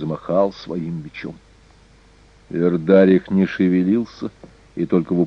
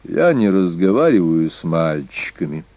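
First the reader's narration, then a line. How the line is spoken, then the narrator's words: Calm male voice. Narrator (Russian): спокойно обратился он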